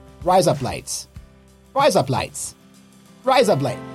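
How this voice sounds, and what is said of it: Put-on Australian accent. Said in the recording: “Now you're going to do it with an Australian accent. Check this out.”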